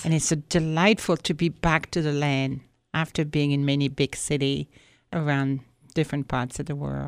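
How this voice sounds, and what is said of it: French accent, not Wisconsin. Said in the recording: “people listening to your voice can tell, well, that's not a Wisconsin accent ... It's hard to pin it, actually ... born and raised in France”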